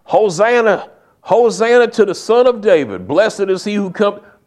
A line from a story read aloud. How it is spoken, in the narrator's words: the same people who a week earlier were hollering